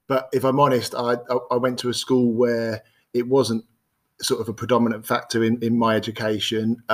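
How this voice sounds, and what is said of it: Birmingham English accent. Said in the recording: “I don't know if you can tell by the accent, I grew up in multicultural Birmingham”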